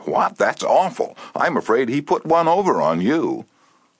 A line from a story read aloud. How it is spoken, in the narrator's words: she exclaimed with a note of triumph